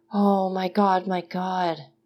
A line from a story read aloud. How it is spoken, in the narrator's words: murmured